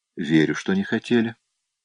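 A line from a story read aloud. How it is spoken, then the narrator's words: Soft. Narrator (Russian): мягко сказала Эмили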